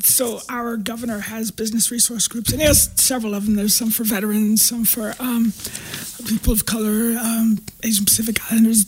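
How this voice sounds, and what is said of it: Hoarse, tired-sounding voice. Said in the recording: “you being hoarse there”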